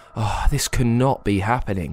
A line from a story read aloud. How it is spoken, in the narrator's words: sighed Harry